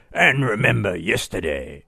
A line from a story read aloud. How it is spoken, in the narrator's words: he bellowed